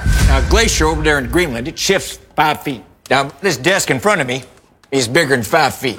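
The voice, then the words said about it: Thick American Southern accent. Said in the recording (Czech): “hutný jižanský přízvuk”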